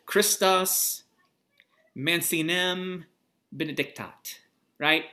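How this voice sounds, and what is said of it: Latin spoken in a Missouri accent. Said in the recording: “the most authentic Latin accent, Missouri Latin accent”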